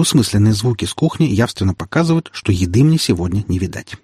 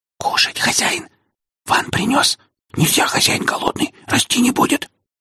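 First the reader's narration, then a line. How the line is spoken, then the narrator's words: Barely audible whisper. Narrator (Russian): Еле слышный шепот принадлежит Вану, нашему штатному кожевару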